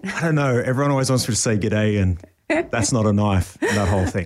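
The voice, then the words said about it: Australian accent. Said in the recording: “is Australian ... your accent”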